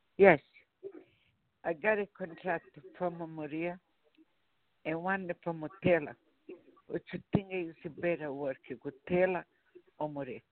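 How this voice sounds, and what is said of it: Very strong accent. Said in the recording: “I'm having a real hard time understanding you. Your accent is very strong.”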